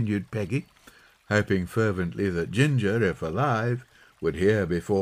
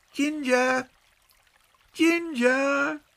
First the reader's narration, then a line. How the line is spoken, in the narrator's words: A violent scream broke out from a treetop